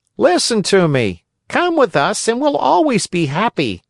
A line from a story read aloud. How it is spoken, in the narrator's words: Lampwick called out